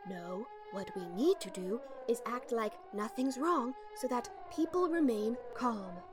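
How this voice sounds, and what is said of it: Phony put-on accent. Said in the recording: “the phony accent”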